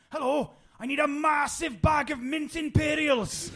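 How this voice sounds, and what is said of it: Put-on Welsh accent. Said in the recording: “in a Welsh accent, and I'm going to butcher this”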